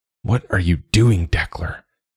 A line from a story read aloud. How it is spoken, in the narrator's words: he tried to rasp, but he couldn't find his tongue